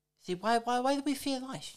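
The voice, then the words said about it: Attempted Mike Tyson impression. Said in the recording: “can I do the accent? ... nah, that's like fucking Joe Pesci ... No, I can't do it. That's Adam Sandler.”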